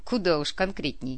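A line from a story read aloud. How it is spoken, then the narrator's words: Snort. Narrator (Russian): хмыкнул Биджар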